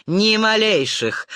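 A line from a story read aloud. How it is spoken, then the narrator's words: Man snorting. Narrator (Russian): хмыкнул мужчина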